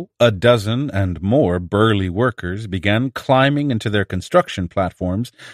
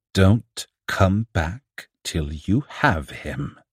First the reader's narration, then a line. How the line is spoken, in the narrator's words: the TikTok man said, very quietly, very sincerely, extremely dangerously